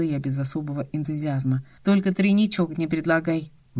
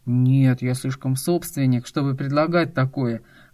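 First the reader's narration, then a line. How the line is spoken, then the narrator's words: Smirking snort. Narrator (Russian): хмыкнул Костя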